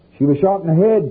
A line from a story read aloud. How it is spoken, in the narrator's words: Kathy yelled